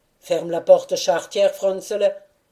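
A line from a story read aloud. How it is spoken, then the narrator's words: Grumbling. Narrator (French): ajouta en grommelant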